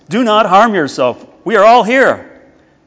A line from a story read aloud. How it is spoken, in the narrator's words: Paul cried with a loud voice